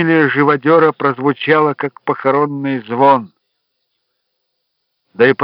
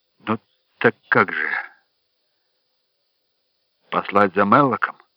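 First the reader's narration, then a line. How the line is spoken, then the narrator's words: Quiet. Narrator (Russian): Дик сказал негромко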